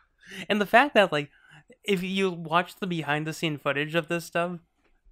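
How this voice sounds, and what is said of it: Usual voice. Nothing is said of it.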